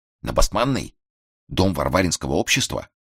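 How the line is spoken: Unwitting whisper. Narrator (Russian): Эрас Петрович, сам не заметив, тоже перешел на шепот

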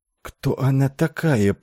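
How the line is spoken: Enchanted whisper. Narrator (Russian): прошептал очарованный Айвин

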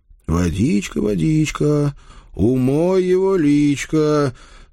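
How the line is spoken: Singsong drawl. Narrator (Russian): Нараспев протянул я

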